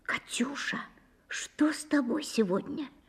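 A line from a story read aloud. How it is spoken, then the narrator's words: Whispered question. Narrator (Russian): Потом спросила шепотом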